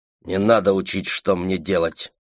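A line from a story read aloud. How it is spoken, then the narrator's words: Sharp, cutting. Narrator (Russian): резко оборвала она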